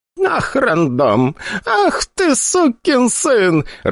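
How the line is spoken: Laughing loudly. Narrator (Russian): расхохоталась она

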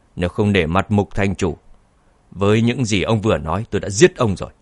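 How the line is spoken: Cold. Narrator (Vietnamese): Anh lạnh lùng nói

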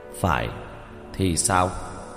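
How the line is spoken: Cold. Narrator (Vietnamese): lạnh lùng nói

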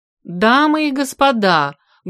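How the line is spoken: Loud appeal. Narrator (Russian): громко воззвал к труппе помощник режиссера

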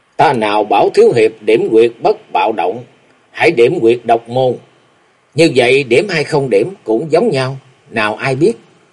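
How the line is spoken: Smiling. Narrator (Vietnamese): Vô Ảnh Cái lúc này mỉm cười nói

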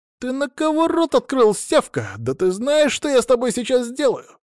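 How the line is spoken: Loud question. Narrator (Russian): громко спросил он

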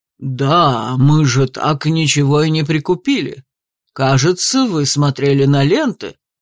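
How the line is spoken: Deep operatic bass. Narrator (Russian): припомнил Данте басом, какой я, наверное, только в опере и слышала

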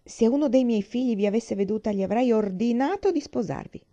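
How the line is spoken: Exclaimed, old grandmother. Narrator (Italian): la nonna vecchia aveva esclamato

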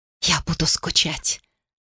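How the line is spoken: Whispered. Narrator (Russian): прошептала она

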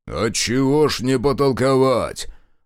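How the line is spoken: Loud booming bass. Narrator (Russian): зычно пробасил высокий

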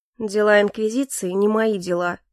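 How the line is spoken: Dry. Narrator (Russian): сухо произнес Калипсо

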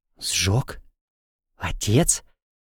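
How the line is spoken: Shocked breath. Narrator (Russian): Потрясенно выдохнула Эва

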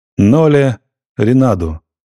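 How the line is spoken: Loud repetition. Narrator (Russian): громко повторил в коридор

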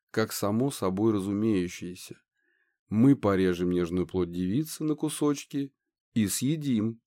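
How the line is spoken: Calm explanation. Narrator (Russian): объяснила спокойно красивая Мегера

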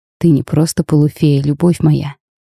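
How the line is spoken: Soft, smiling. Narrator (Russian): мягко улыбнулся принц

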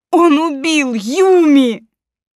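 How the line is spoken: Shout, then sobbing. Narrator (Russian): Прокричала и разрыдалась

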